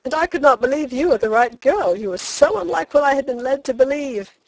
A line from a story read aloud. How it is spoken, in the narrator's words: he said with a laugh, in a burst of confidence